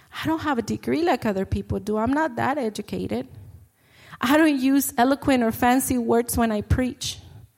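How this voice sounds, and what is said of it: Speaks with an accent. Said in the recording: “I have an accent.”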